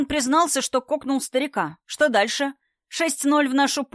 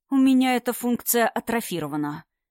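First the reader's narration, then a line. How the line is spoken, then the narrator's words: Very calm. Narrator (Russian): очень спокойно ответил доктору Константин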